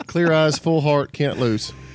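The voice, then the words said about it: Put-on American country accent. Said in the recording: “In your country accent.”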